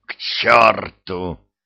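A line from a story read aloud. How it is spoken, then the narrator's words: Angry growl. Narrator (Russian): прорычал он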